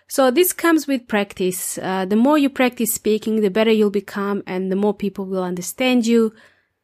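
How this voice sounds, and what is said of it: Soft non-native English accent. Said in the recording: “I don't have an Australian accent ... My accent is not as strong as it was when I first arrived in Australia and New Zealand. It softened out. It got weaker and became softer. Although I still have an accent.”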